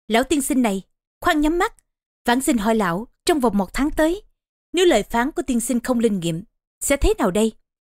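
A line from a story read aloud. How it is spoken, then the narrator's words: Scornful snort, raised voice. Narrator (Vietnamese): Trương Nghi hừ mũi một tiếng lên giọng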